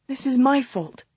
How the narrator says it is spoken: she mumbled

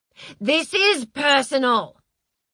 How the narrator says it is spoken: shouted Heather

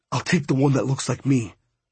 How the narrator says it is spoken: Hondo whispered in my ear

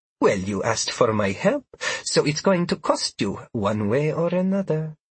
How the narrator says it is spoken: she said with an ominous laugh

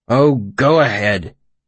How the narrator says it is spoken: the old tracker said bitterly

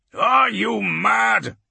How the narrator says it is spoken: Dragon growls

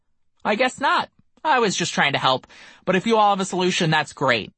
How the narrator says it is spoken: he happily responded

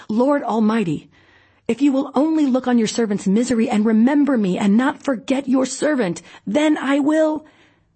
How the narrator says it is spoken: she cried out in bitterness of soul

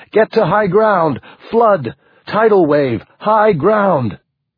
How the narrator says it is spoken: Tim screamed at him

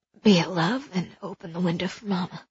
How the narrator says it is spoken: she said in a hoarse murmur

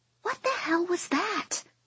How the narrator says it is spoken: Lucy hisses

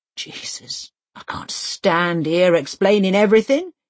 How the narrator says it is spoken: he groans

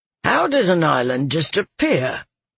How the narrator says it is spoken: one grumbled

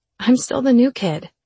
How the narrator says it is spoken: I sighed

